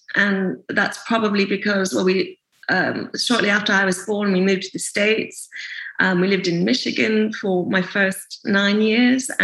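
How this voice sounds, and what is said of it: Mixed-up North American accent. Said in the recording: “I've got a very sort of mixed up accent.”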